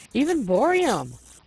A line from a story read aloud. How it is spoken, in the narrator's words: we exclaimed, delighted